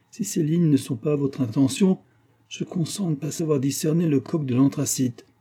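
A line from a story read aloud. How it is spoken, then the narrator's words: Exclaimed. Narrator (French): s'écria-t-il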